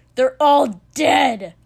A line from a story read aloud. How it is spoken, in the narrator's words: Kotsky spat